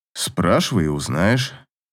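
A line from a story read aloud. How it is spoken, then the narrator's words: Lazy reply. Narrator (Russian): лениво ответил Аверин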